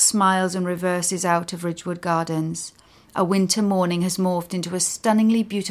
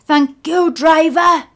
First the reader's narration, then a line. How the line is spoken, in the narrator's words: Leighton shouts